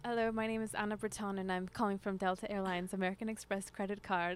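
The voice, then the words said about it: Put-on British accent. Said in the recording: “I tried out the British accent”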